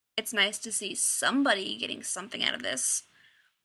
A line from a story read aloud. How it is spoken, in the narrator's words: Rodney grumbled